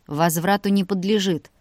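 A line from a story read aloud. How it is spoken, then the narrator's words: Snorting. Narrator (Russian): тоже фыркнул Илья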